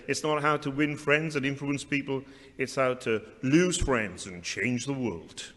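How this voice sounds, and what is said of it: Attempted American accent. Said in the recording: “my attempt at an American accent”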